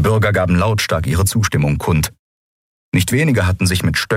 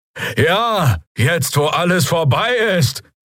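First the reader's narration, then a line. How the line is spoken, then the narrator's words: Shout from crowd. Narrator (German): rief jemand aus den Reihen der Bürger, der Stimme nach ein Draxyl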